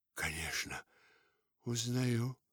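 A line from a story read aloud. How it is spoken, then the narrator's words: Whispered. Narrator (Russian): прошептала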